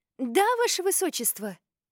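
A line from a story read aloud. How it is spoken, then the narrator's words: Exclaimed. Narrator (Russian): воскликнула Аманда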